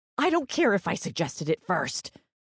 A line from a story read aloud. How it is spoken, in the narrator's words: Paige snapped